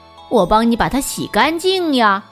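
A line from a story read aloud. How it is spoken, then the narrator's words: Loud shout. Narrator (Chinese): 男孩大声喊道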